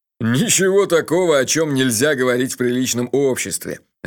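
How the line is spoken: Loud laughter. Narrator (Russian): расхохотался Джуффин

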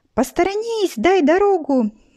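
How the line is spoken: Joyful shriek. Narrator (Russian): визжала радостная Люда

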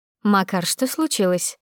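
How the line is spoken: Plain. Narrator (Russian): спросила Анна

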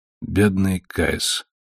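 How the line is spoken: Sad mutter. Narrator (Russian): печально пробормотал он

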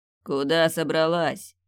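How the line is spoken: Growl. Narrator (Russian): прорычал он

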